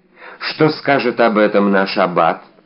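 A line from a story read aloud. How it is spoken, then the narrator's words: Calm inquiry. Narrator (Russian): спокойно осведомился Атос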